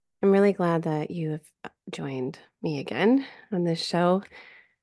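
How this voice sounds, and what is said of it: Congested voice from a cold. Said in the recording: “I have a little bit of a cold. I've been recovering from a little virus... I apologize if I sound congested.”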